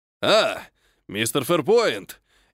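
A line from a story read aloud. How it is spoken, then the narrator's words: Blacksmith's jubilant greeting. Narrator (Russian): ликующим голосом приветствовал меня кузнец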